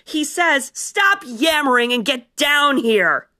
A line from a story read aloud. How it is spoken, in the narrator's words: Kestrel roared